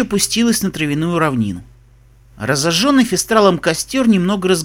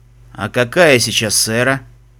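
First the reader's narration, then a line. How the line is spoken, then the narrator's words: Tired voice. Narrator (Russian): спросил Фестрал усталым голосом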